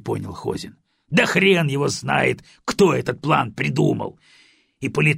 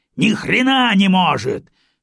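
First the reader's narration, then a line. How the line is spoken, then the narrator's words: Barking shout. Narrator (Russian): рявкнул генерал армии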